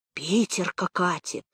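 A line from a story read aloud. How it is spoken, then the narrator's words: Muffled, passed among village women. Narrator (Russian): по всей деревенской улице от бабы к бабе перекатывалась глухо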